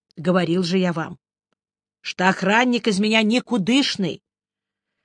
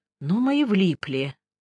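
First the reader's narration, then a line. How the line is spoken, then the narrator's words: Disappointed sigh. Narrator (Russian): разочарованно вздохнул я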